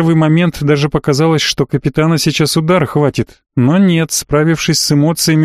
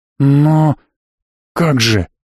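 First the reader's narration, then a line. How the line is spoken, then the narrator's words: Bewildered whisper. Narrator (Russian): растерянно прошептал Прокс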